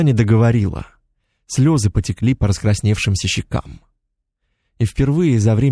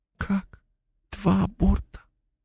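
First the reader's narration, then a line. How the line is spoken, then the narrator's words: Very quiet whisper, stunned. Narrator (Russian): Совсем тихо прошептала Полина, внезапно перестав плакать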